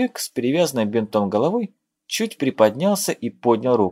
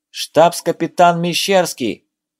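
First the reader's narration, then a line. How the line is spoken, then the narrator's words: Loud shout. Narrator (Russian): громко крикнул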